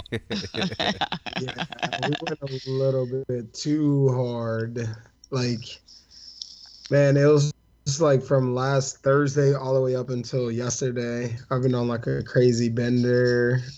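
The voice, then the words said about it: Slightly rough, strained voice. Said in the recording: “My voice is like a little messed up right now because of that... I've had like a 2-day hangover.”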